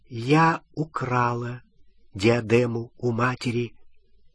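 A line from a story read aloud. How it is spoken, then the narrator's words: Quiet. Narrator (Russian): она тихо сказала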